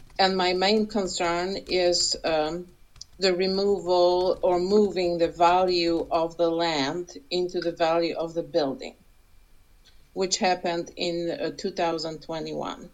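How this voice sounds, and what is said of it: Accented, slow speech. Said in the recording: “as you can hear, I have an accent and I speak slowly”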